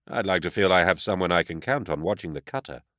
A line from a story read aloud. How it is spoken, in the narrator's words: lied smoothly